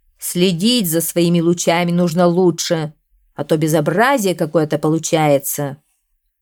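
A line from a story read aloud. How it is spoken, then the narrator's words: Grumbling. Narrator (Russian): проворчал закон природы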